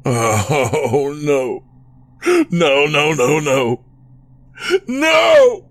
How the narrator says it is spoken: Chris wailed

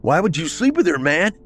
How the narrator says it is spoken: yelled

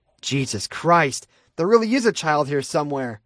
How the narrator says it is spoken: Alice snapped

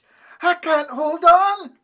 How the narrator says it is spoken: shouted Flash

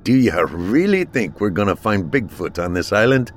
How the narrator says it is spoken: scoffed Mac

